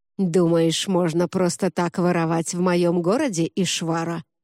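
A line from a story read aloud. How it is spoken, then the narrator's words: Angry growling hiss from behind. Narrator (Russian): прошипел за спиной злой рычащий голос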